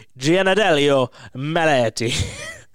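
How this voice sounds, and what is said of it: Put-on Italian accent. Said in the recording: “I'm going to say this with an Italian accent, so it feels authentic.”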